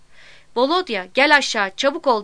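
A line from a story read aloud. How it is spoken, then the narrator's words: Shouting again. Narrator (Turkish): diye yeniden bağırdım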